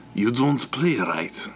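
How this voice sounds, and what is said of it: Attempted French Canadian accent, sounds Russian. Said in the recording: “this nasty French Canadian man ... That's Russian, so that's a bad accent ... That's Russian again”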